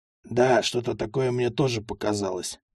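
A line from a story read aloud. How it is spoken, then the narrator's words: Grumbled. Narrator (Russian): буркнул Анискин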